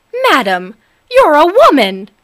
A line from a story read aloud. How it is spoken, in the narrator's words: exclaimed the man